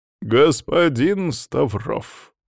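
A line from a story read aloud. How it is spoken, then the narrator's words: Sighing. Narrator (Russian): вздохнул завуч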